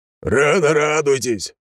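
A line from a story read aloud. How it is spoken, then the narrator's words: Shouting. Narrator (Russian): прокричал Егорыч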